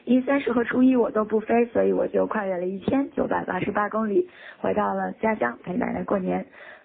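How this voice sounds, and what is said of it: Hoarse voice. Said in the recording (Chinese): “因为生病所以嗓子哑了”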